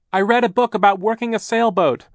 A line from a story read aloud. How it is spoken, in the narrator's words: Klaus shouted over the noise of the hurricane